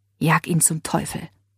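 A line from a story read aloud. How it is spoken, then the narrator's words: Whisper. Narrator (German): flüsterte Leila ihr zu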